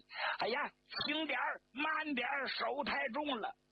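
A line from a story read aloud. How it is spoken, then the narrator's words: Squealing like a pig. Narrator (Chinese): 张国焘啊，像杀猪似的就叫起来了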